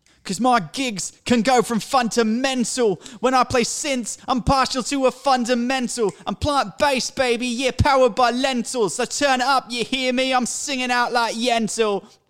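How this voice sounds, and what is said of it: Singing in thick British accent. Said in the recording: “You got to imagine I'm singing with a thick British accent, which I will do now”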